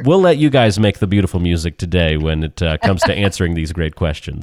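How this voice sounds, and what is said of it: Nasal, congested voice. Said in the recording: “I've got pollen head today... So forgive my nasaliness... my voice is my instrument. Well, it's a little out of tune today.”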